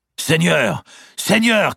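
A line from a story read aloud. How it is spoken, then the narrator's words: Shouting. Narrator (French): criait-il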